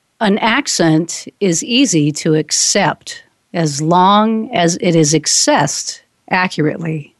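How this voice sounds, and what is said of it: Slow deliberate reading. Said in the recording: “let's start out now, slow.”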